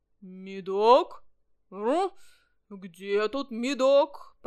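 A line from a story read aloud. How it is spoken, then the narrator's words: Growling. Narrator (Russian): прорычал он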